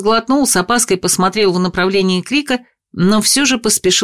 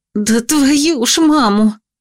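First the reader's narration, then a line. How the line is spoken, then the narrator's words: Exhaled. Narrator (Russian): выдохнула я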